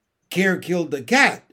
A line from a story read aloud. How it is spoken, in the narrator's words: snapped Mary Poppins